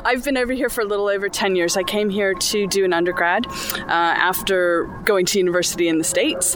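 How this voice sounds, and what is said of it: American accent. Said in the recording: “you don't sound at all British... I sense that maybe I'm speaking to a fellow American”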